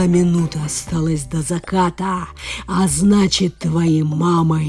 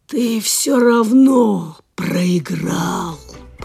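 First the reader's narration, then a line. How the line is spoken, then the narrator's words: Dragon's hiss. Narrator (Russian): прошипел дракон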